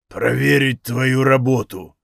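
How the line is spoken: Deep bass, demon. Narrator (Russian): пробасил демон

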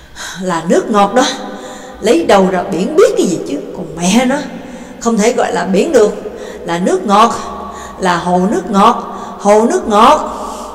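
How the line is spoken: Panting, loud. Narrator (Vietnamese): thở hổn hển, lớn tiếng nói

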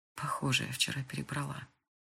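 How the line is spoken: Whisper. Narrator (Russian): прошептала Крис

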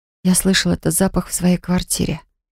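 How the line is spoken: Entranced whisper. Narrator (Russian): завороженно прошептала

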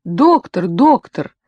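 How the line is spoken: Joyful distant calling. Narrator (Russian): радостно позвала оттуда списочная сердечница Дубинина

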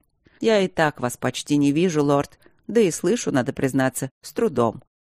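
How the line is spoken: Dry, curt. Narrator (Russian): сухо ответил дворецкий

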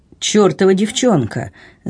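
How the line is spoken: Annoyed muttering. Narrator (Russian): с досадой пробурчал флебустьер

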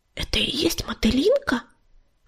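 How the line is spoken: Whispered question. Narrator (Russian): шепотом спросила она у ласточки

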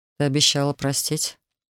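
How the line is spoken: Sad speech. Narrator (Russian): грустно сказал

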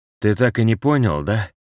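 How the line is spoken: Unexpectedly soft question. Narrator (Russian): неожиданно мягко спросил Себастьян

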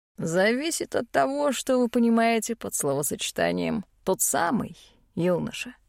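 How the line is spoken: Librarian's snorting remark. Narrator (Russian): хмыкнул библиотекарь

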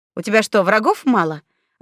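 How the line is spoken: Snapped. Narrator (Russian): огрызнулась Светка

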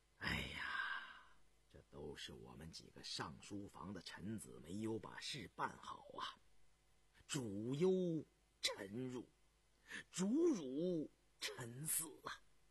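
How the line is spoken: Long sigh. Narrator (Chinese): 张廷玉 长叹道

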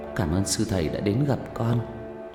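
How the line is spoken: Quiet voice. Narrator (Vietnamese): Tôi nhỏ giọng

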